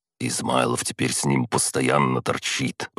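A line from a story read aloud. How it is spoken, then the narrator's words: Grumbling mutter. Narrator (Russian): пробурчал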